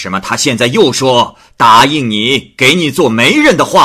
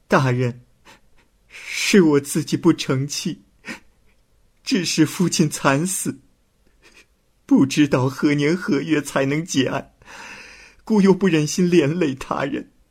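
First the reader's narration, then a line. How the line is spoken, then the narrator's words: Crying. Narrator (Chinese): 胭脂哭着说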